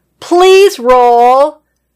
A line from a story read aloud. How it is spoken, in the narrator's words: said getting a bit frustrated yelling